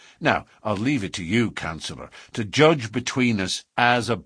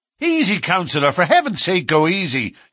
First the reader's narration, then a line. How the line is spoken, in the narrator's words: cried